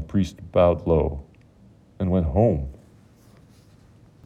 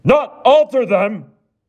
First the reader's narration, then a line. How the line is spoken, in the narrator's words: roared